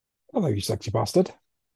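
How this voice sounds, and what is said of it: Extra gruff accented greeting. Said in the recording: “that was really nice in your accent... I put on a bit of extra gruff for you as well... I was exhaling a vape at the time. So it was just like proper”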